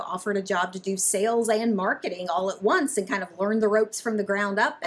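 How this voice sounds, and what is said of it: Mild Southern American accent. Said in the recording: “I don't detect a Wisconsin accent necessarily ... you pick up on a Southern accent ... Maybe a little more Southern ... Maybe not quite as Southern as my other fellow Alabamians”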